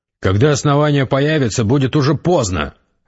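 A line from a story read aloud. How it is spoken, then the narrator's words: Sharp, curt. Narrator (Russian): резко сказал Гессер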